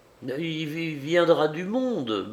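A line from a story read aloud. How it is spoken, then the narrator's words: Desperate stammer. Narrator (French): balbutiai-je, presque avec désespoir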